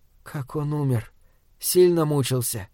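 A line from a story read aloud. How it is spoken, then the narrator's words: Barely audible question. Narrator (Russian): еле слышно спрашивает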